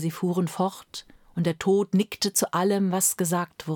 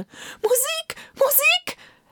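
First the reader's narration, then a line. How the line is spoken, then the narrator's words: Emperor shouting. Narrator (German): schrie der Kaiser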